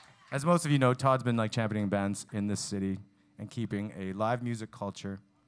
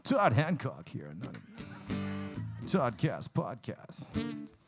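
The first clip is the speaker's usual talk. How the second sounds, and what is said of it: Deep macho radio announcer voice. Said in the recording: “the best radio voice. ... It's got all that machismo.”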